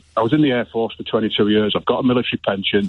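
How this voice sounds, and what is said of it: Middlesbrough accent. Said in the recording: “I was just trying to wonder about the accent there ... Middlesbrough originally”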